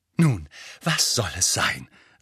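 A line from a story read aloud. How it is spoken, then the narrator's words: Breathless. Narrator (German): sagte sie atemlos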